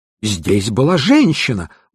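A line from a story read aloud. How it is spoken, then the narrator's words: Exclamation. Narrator (Russian): воскликнул он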